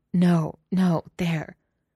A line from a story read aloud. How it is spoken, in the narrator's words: she gasped and moaned, she said